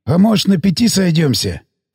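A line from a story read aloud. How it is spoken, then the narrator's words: Timid hoarse voice. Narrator (Russian): предпринял робкую попытку сиплый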